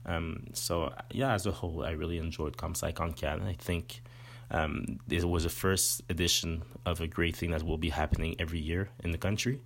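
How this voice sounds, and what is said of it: French accent in English. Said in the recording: “I'm from the Montreal region, more or less, and I speak French, as you can see in my accent”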